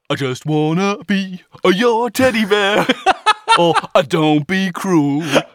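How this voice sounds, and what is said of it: Elvis-style singing voice with added schwa. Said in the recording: “the Elvis schwa is like ... do an Elvis impression, the quickest way to do it is just stick a schwa in front of anything”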